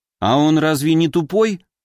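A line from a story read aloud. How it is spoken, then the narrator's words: Scoffing snort. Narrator (Russian): я хмыкнул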